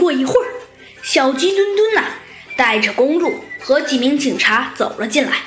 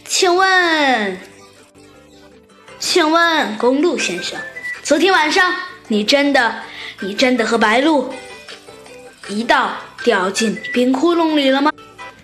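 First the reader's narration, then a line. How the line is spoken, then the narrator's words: Smiling. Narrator (Chinese): 猴子警长露出了一丝微笑，他说道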